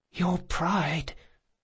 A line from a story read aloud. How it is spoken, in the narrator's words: the boy whispered